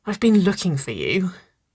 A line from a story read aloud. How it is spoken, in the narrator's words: Waverly sighed